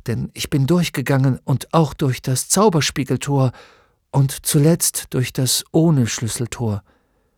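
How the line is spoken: Quiet speech. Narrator (German): sagte Atreo leise

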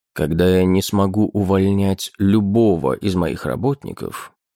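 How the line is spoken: Calm reply. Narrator (Russian): спокойно ответил ему Гейл

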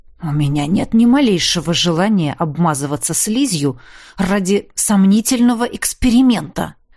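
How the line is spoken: Gruff mutter. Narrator (Russian): буркнул Огрис

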